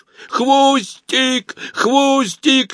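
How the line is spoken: Ear-piercing shriek. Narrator (Russian): визжала она так, что мне звенело в ушах

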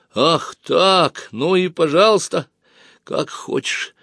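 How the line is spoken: Sobbing. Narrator (Russian): Олег всхлипнул

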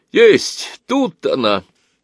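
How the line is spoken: Sudden cry, craftsman. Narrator (Russian): Вскрикнул вдруг один из ремесленников

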